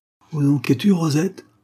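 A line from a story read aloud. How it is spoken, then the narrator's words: Shouting. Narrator (French): cria M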